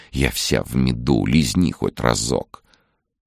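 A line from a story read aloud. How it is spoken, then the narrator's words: Tempting hot whisper. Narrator (Russian): Нечто шоколадно-поджаристое в хрустящей золотистой корочке горячо шептало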